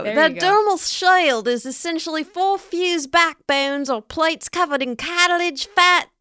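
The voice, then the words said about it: Attempted Australian accent. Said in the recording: “Should I try an Australian accent? ... It's accents aren't my thing. ... Australian.”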